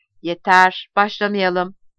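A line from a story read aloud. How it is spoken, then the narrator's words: Harsh voice. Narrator (Turkish): George dönüp bakmama neden olan sert bir sesle dedi ki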